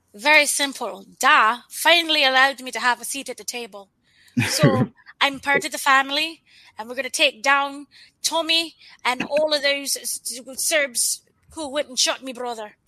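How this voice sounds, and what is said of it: Convincing put-on Irish accent. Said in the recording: “That Irish accent is incredible. ... Yeah, that's fantastic. ... I can't do an Irish accent like that”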